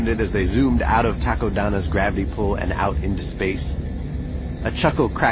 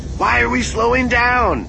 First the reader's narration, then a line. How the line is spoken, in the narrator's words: Sana yelled over the comm